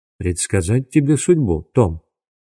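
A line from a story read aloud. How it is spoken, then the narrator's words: Quiet question. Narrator (Russian): тихо спросил Дуглас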